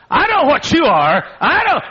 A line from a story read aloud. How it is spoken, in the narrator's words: she screamed out